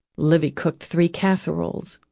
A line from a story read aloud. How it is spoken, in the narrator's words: she muttered